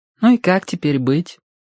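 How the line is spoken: Sighing. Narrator (Russian): вздохнула Верити

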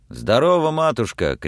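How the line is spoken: Shout. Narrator (Russian): крикнул он

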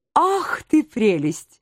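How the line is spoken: Cooing. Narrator (Russian): проворковал Лазуронд

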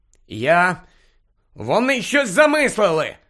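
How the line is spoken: Exclaimed. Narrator (Ukrainian): вигукнув Гаррі

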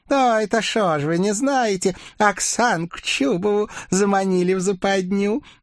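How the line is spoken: Witch's joyful laugh. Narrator (Russian): Радостно рассмеялась ведьма

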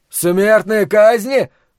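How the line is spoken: Terrified scream. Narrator (Russian): в ужасе завопил Ллойд

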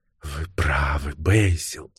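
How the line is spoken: Barely audible. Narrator (Russian): чуть слышно произнесла она

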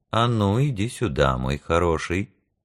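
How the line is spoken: Quiet. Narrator (Russian): проговорил тихо

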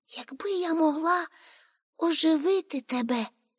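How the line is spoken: Sighing. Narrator (Ukrainian): сказало воно і зітхнуло

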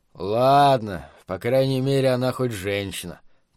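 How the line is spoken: Gloomy. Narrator (Russian): проговорил он мрачно

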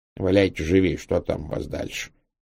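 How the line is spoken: Grumbled. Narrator (Russian): пробурчал

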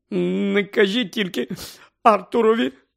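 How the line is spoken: Sobbing. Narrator (Ukrainian): схлипувала місіс Уізлі

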